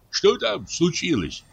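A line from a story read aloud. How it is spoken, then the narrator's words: Plain question. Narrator (Russian): спросил лесник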